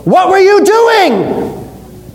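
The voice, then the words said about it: Yelling like an angry teacher. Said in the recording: “I'm going to yell at them ... I'm yelling at that part of the class ... I'm yelling at them”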